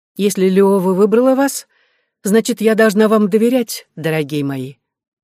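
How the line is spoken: Said with a smile. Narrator (Russian): с улыбкой сказала я

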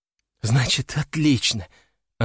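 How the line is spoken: Relieved exhale. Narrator (Russian): она облегченно выдохнула

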